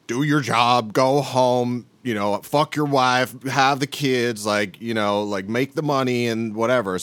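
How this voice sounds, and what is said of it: Slight Southern US accent. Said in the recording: “I love that you had like a slightly Southern accent.”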